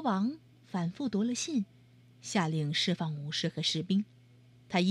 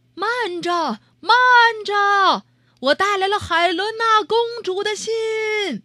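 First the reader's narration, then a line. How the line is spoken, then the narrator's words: Loud shout from ship. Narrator (Chinese): 西蒙老七在船上大声喊了起来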